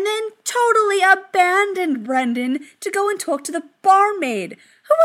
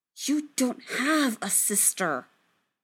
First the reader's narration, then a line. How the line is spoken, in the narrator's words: Brendan hissed at him